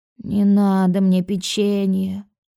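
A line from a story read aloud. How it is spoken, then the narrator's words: Deeply anguished sigh. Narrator (Russian): с невыразимой тоской вздохнул Леон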